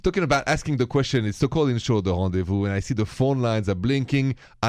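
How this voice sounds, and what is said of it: French accent. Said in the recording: “My accent is French.”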